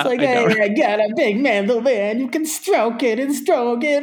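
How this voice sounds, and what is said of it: Inaccurate Andrew Dice Clay Italian accent. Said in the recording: “accent's even more inaccurate ... Andrew Dice Clay was not an authentic Italian accent”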